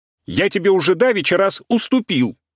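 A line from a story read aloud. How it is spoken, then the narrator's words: Shouting. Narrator (Russian): кричал Игнатий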